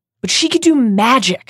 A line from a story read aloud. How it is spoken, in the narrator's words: said Harry impatiently